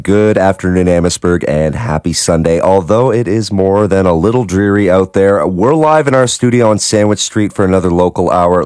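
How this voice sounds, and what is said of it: Slightly hoarse voice. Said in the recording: “I sound a little hoarse ... I'm just a little bit under the weather”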